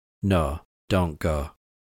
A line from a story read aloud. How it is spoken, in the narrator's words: he pleaded weakly